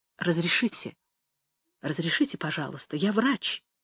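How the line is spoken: Quiet but firm. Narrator (Russian): тихо, но решительно говорил он

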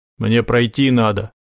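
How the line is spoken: Grumbling mutter. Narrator (Russian): буркнул он

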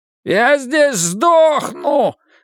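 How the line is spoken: Yelled from behind. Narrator (Russian): заорал за их спинами Форд

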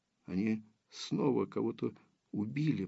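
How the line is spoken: Whispered. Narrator (Russian): прошептала Дарья

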